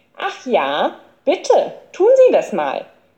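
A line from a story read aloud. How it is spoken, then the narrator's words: Calling out. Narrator (German): rief Krummbiegel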